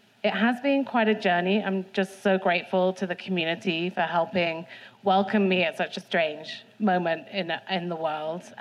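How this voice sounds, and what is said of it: British accent. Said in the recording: “you might hear my British accent.”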